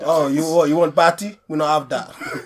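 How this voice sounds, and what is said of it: Poor put-on Jamaican accent. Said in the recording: “Your Jamaican is so bad.”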